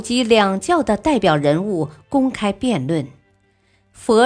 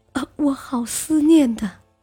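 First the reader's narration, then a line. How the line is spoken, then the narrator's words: Sorrowful crying. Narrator (Chinese): 李氏哭得伤心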